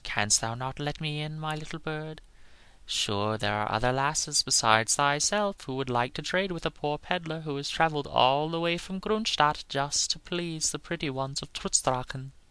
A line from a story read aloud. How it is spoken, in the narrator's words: in a soft, wheedling voice